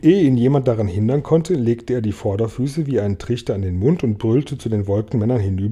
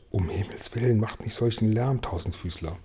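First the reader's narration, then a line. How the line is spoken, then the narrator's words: Very worried whisper. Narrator (German): mahnten alle, und James flüsterte sehr besorgt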